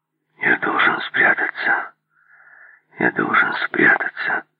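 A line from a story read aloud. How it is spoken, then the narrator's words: Muttering. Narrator (Russian): бормотал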